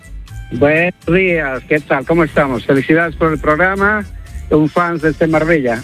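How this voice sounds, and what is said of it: Bolivian Spanish accent. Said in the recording (Spanish): “Pues con ese acento, digo yo, me nos llama del norte. ... soy yo boliviano ... parecía gallego”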